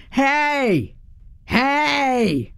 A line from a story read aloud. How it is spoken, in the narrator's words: in my deepest, growliest voice